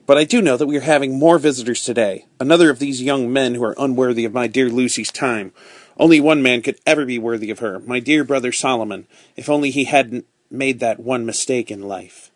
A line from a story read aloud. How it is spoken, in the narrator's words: snapped Miss Pross